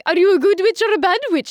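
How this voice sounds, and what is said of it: Glinda impression from Wizard of Oz. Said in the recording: “I would sound exactly like Glinda ... terrible Glinda impression ... That's a really good one”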